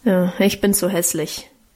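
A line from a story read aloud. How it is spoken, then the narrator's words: Grumbling. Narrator (German): brummte Guste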